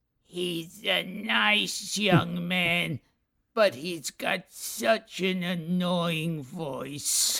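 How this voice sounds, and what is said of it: Bill Hickey impression. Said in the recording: “great Bill Hickey impression”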